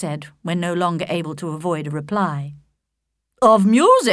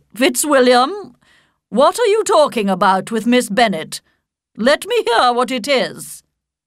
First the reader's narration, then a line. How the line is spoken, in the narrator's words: her ladyship called loudly across the room